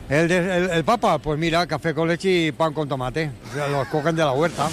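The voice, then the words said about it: Put-on Catalan accent in Spanish. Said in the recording (Spanish): “tiene acento catalán ... Me encanta que tenga el Papa acento catalán”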